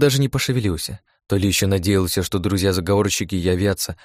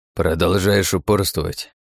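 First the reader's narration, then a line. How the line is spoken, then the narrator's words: Old man grumbling. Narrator (Russian): проворчал дед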